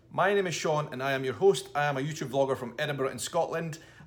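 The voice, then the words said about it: Scottish accent. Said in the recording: “This is your podcast in a Scottish accent.”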